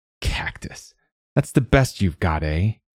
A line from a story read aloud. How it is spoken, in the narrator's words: he sneered